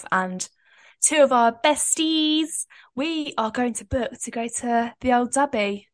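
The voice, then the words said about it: Put-on northern English accent. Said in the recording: “that accent's absolutely shocking ... this isn't Irish. This is a northern. ... it's a good northern accent.”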